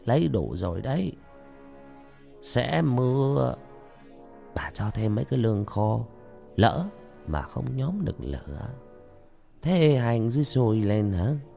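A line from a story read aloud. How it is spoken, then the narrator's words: Old woman, gentle soft. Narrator (Vietnamese): bà nhỏ nhẹ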